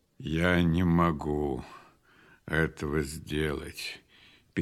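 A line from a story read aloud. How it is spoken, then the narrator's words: Sad reply. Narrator (Russian): печально отвечал Исаак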